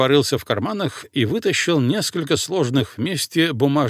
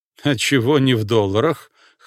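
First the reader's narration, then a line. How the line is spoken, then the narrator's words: Snorting. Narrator (Russian): хмыкнул майор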